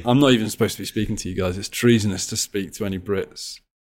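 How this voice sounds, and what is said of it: British accent. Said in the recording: “I'm even speaking in a British accent”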